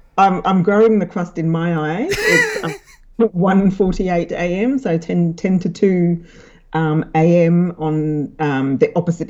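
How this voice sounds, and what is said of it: London accent with slight Australian twang. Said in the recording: “a very strong London accent ... a slight Australian twang on top of the London accent”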